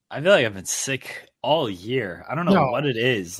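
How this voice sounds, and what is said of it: Sick-sounding voice with cough. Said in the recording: “I'm sure people can tell by my voice that a little under the weather. This cough has returned.”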